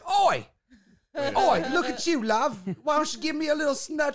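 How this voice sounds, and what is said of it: Put-on Cockney accent. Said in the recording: “has a Cockney accent that he uses for anybody from the UK ... Anybody from the UK gets the Cockney accent.”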